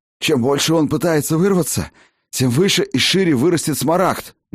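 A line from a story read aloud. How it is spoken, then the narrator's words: Hoarse, breathless. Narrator (Russian): на бегу прохрипел лекарь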